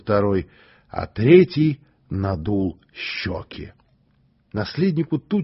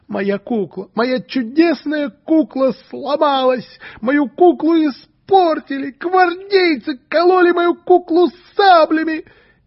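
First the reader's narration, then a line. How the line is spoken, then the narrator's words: Sobbing. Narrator (Russian): он опять зарыдал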